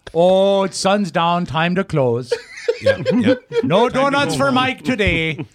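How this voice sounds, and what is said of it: Put-on Canadian accent. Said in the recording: “Is that a Maine accent? ... No, I was trying to do Canada.”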